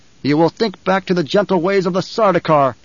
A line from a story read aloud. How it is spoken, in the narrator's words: Paul snapped